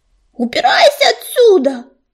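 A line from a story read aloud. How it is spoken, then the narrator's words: Rook yelling angrily. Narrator (Russian): заорал грачик на старика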